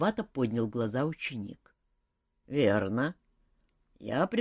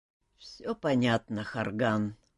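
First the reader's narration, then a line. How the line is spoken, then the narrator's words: Heavy sigh. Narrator (Russian): тяжело вздохнул человек в капюшоне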